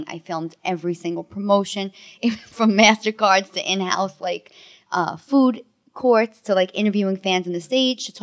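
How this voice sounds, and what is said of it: Bronx New York accent. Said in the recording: “definitely hearing the accent now. ... Once I talk, that's it. It comes out, you know. ... You can take the girl out of the Bronx.”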